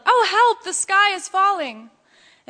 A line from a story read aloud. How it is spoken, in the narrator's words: Ducky Lucky asked, she yelled